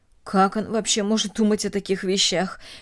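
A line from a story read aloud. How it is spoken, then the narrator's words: Mutter. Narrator (Russian): пробормотала Эстер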